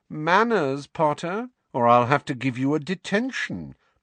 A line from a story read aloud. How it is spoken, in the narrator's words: drawled Malfoy